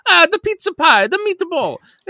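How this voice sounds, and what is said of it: Goofy put-on Italian accent. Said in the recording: “you do a goofy Italian accent.”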